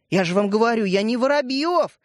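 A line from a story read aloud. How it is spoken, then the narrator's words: Exclamation. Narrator (Russian): воскликнул Светлик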